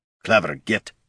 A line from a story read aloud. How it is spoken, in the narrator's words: Gorm growled